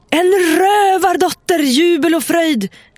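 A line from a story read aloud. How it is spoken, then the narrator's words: Shouting. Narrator (Swedish): skrek Mattis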